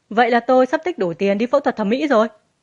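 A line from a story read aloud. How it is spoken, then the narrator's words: Gleeful. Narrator (Vietnamese): Nhậm Kiêu hớn hở ra mặt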